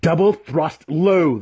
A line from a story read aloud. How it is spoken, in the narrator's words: the weapon master growled